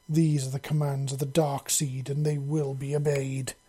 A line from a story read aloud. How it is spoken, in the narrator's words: she snarled in a slightly echoing voice